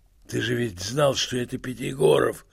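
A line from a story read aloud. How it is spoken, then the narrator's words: Hoarse, half-voiced. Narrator (Russian): хрипел через минуту Евстрат Спиридонович в полголоса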